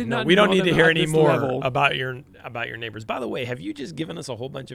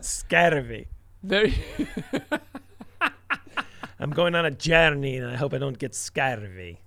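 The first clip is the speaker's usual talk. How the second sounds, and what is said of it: Put-on Irish accent. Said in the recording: “say scurvy with an Irish accent”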